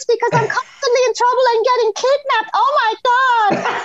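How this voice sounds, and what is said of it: Squeaky whiny cartoon pony voice. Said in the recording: “they all have these extremely annoying squeaky voices... this is me as a pony, like talking like that all the time... I have a very whiny voice... hearing you do an impression of it”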